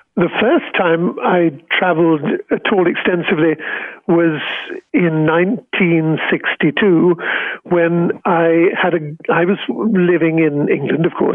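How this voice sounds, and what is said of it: British English accent. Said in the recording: “we can tell from your accent and from your honors that you are British”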